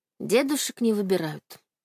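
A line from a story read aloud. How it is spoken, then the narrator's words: Soft, smiling. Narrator (Russian): мягко улыбнулась я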